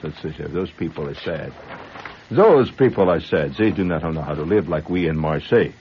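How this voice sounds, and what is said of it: Exaggerated fake French accent. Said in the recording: “You like my accent? ... That's a Indiana French.”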